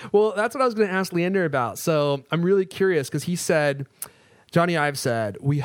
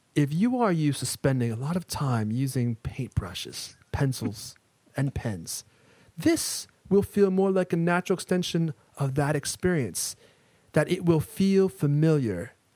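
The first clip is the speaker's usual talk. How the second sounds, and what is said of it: Bad, serious Jony Ive impression. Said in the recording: “terrible ... it was awful ... the worst impression. Johnny Ive impression ever on the internet ... you sounded very serious, though ... that's how he sounds. He sounds serious. He also sounds British. That's the part I don't have down yet.”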